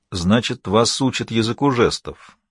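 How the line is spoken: Even, flat remark. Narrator (Russian): ровным тоном заметил Эрлин

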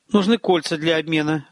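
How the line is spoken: Confused. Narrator (Russian): растерянно ответил Терсат

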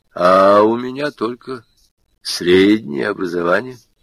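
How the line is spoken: Calm, weighty, weary. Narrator (Russian): говорил Петр Петрович спокойно, веско, с видом созидателя, измученного временным творческим бессилием

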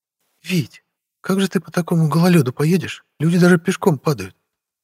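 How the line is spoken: Muttered. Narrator (Russian): Пробормотала Вера

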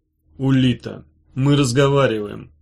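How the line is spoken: Said softly. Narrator (Russian): мягко сказала Сёрх

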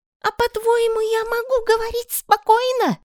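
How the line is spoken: Woman shouting. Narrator (Russian): закричала тетя

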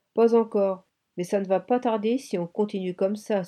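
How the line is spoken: Sighed. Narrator (French): soupira Ami

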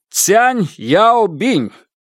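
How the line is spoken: Shouted out. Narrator (Russian): выкрикнул

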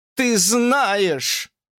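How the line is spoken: Shouted. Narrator (Russian): закричала Фанни

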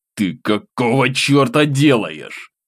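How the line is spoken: Angry near-hiss. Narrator (Russian): Злобно практически прошипел я

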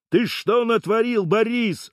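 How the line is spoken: Yelling. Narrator (Russian): орал

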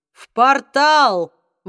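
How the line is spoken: Exclaimed. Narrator (Russian): воскликнул Магнус

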